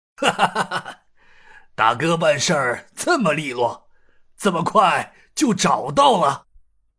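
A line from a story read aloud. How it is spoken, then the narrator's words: Laughing. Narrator (Chinese): 牛太官笑道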